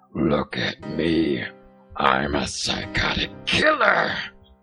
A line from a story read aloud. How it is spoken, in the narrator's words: menacingly he spoke in a low, gravelly voice